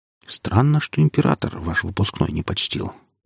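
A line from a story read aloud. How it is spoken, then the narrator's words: Quiet speech. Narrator (Russian): тихонько проговорила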